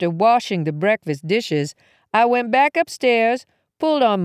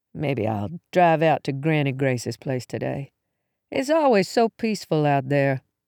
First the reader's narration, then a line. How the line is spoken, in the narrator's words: Biting into a muffin, mumbled